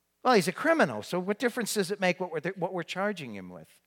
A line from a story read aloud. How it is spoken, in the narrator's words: said